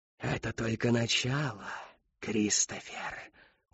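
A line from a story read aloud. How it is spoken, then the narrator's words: Smirking. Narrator (Russian): ухмыльнулась Шептунья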